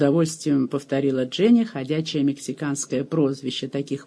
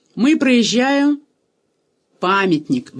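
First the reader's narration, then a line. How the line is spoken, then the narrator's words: Shouted out. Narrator (Russian): выкрикнул негр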